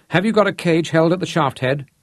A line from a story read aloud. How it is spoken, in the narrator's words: Rod called out to break the tension